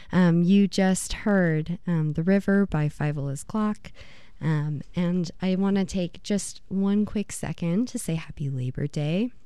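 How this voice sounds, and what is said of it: Hoarse, recovering voice. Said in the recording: “forgive my voice. I am recovering from having lost it last week, and it is taking its sweet time. So forgive any wacky sounds that may happen”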